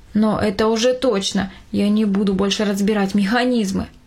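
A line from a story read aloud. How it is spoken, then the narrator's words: Plain. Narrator (Russian): сказал он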